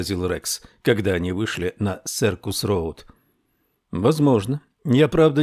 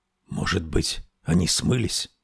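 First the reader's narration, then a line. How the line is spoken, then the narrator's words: Whisper. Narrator (Russian): прошептал Рекс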